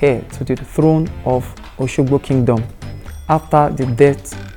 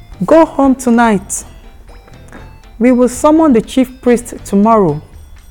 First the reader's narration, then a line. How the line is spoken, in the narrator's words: Bewa hollered